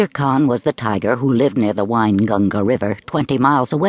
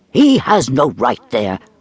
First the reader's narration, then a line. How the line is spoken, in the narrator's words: Father Wolf began angrily